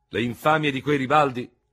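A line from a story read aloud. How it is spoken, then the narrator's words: Thundering. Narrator (Italian): tuonò il generale Feraud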